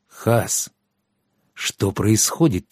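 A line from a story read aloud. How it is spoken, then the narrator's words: Quiet question. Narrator (Russian): тихо спросил Щавель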